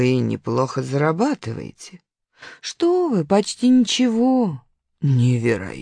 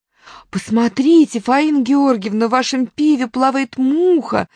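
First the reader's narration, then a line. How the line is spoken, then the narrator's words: Loud shout. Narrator (Russian): во весь голос закричала соседка по столу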